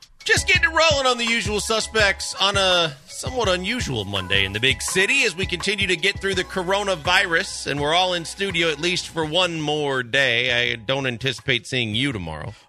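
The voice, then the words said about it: Slight Midwestern accent. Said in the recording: “you had your little Midwest accent come out there for a second ... Yeah, a little bit.”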